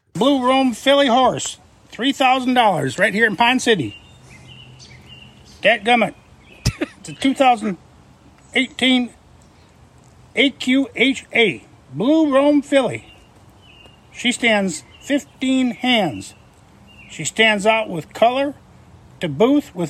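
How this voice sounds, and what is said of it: Put-on Southern accent. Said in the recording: “I thought we'd get to hear a good, authentic Minnesotan accent ... when he busted out the Southern accent”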